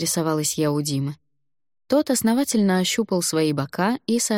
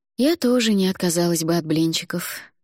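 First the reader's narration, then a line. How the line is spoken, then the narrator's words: Sighing. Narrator (Russian): вздохнула я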